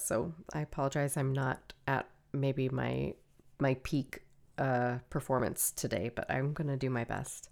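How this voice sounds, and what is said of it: Sick-sounding voice. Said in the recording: “Everybody in my house is sick, including me, which is why my voice sounds like this.”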